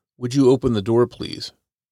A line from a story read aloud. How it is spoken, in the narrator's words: The man's words were polite, but his tone was clear